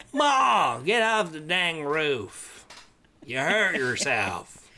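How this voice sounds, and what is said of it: Put-on Southern American accent. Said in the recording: “very southern if I try to do an American accent ... and it's terrible ... sounding like I'm from Louisiana ... Louisiana, New Orleans”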